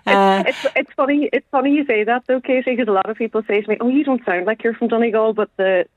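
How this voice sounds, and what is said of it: Donegal Letterkenny Irish accent. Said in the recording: “a lovely Letterkenny accent”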